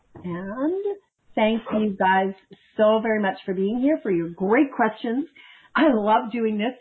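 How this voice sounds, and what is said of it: Voice going hoarse. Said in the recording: “I'm losing my voice.”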